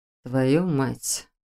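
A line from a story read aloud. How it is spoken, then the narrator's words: Through gritted teeth. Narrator (Russian): процедил Шелтер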